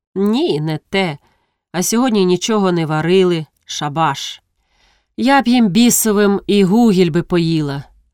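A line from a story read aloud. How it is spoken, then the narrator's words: Sighed. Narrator (Ukrainian): Рогожка зітхнула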